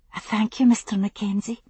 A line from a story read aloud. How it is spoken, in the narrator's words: she murmured